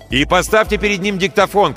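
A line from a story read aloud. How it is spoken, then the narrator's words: Shout over shoulder. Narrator (Russian): крикнул за спину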